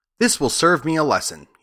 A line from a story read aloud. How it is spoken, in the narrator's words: he said